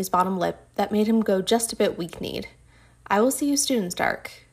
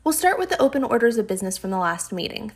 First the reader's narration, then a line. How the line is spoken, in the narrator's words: Thor said importantly